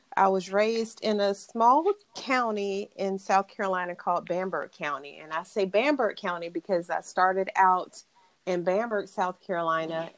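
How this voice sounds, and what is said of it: Southern country drawl. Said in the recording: “I'm a country girl to my core. So if you hear the little country drawl, then that's what that is.”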